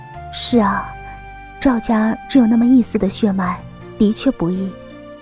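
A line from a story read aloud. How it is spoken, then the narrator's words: Soft sigh. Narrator (Chinese): 我轻叹道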